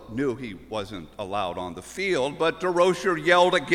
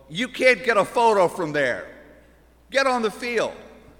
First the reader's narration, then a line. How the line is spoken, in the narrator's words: yells